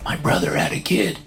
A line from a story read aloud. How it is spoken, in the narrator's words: he whispers